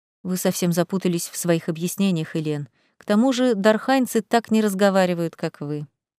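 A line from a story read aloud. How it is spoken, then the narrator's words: Quiet. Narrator (Russian): тихо произнес виконт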